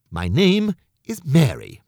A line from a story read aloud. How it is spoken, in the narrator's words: she said